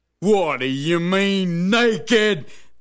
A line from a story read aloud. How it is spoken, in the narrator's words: Bill howled